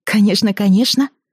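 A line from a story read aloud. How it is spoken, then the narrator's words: Exclaimed. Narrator (Russian): воскликнула Алиса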